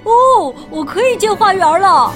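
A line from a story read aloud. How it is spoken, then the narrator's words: Excited exclamation. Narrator (Chinese): 惠灵顿叫起来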